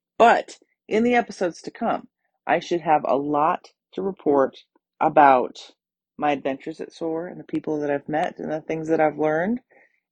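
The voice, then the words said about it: Hoarse, scratchy, tired voice. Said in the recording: “My voice is super scratchy from all the traveling that I've done. I'm kind of tired... my voice is a little hoarse”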